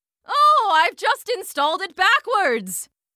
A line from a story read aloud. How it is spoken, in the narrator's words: his shout was drowned out by the 3,000 rampaging Texas bulls stampeding their way through the laboratory